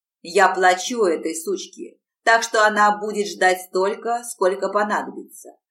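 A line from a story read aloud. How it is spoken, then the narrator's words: Snapped. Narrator (Russian): огрызнулся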